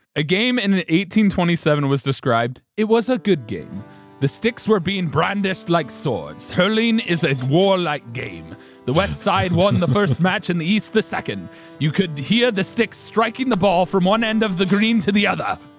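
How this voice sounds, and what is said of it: Wandering put-on accent. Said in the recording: “That accent toured the world. I'm impressed. That went places. ... I didn't know where this guy was from, so I just tried to like cover all of my bases.”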